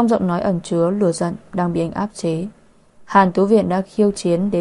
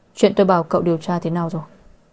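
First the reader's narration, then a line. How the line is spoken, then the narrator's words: Cold. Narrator (Vietnamese): Mục Bắc Thừa lạnh lùng nói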